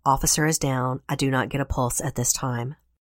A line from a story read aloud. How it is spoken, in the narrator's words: His voice is inaudible as well, he reportedly said